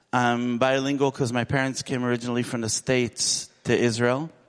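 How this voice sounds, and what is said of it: American English accent. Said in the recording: “I know I sound American.”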